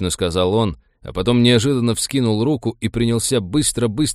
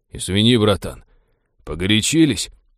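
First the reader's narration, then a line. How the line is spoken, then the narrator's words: Mutter. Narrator (Russian): пробормотал маг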